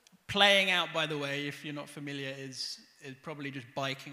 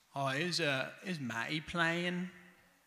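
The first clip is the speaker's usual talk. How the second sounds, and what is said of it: Norfolk accent. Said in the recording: “This is kind of a Norfolk accent.”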